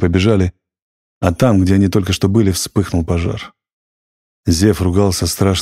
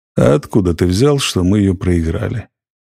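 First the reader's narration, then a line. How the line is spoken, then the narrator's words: Lazy question. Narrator (Russian): лениво спросил Зев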